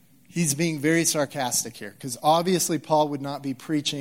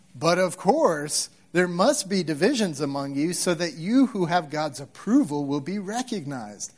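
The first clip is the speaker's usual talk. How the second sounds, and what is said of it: Sarcastic reading voice. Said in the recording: “I did that in my best sarcastic voice I could do. Okay, I'm not that good at that.”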